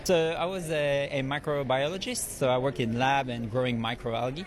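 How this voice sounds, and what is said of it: French accent. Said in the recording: “where are your beautiful accents from? ... I'm French.”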